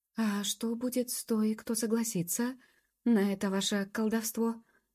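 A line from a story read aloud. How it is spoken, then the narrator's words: Timid, terrified question. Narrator (Russian): робко спросила Табита, белая от ужаса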